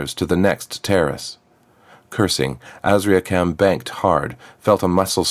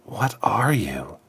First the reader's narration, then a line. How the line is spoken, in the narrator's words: Azriakam whispered